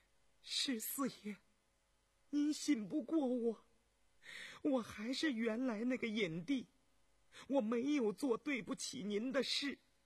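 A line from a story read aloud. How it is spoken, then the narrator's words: Soft, trembling, frightened reproach. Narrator (Chinese): 惊恐哀伤 轻轻地颤声嗔道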